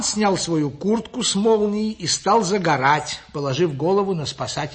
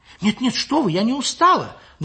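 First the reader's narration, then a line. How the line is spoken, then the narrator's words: Frightened. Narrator (Russian): Даже испуганно ответила Лиля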